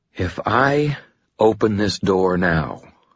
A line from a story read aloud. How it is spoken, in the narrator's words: I said slowly